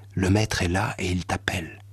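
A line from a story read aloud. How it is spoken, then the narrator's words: Low voice. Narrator (French): lui dit à voix basse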